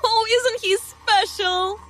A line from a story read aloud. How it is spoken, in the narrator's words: Lucy giggled